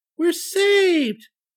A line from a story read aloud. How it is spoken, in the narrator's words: cried the cherub